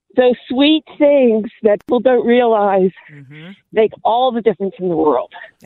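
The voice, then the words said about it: East Coast Philadelphia accent. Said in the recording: “I'm detecting an accent there. ... I'm from the East Coast. ... Philly.”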